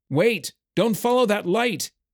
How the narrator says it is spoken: shouted

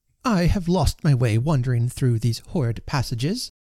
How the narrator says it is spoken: she said in her severest tone

